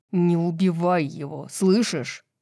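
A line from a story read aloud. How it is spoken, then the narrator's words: Growling. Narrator (Russian): прорычал Тарион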